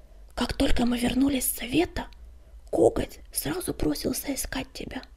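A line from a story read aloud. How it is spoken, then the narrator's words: Barely audible whisper. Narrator (Russian): еле слышно прошептала она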